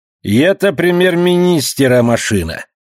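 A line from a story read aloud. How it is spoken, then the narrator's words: Loud, joking. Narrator (Russian): Эдгар Джей Уоткинс сказал громко, шутя, разумеется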